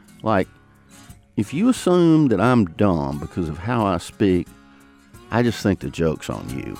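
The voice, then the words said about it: Southern American accent. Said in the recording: “he's going to know more about the South ... I have become proud of my speech patterns ... I don't know any Southerner anywhere whose accent hasn't given them some trouble”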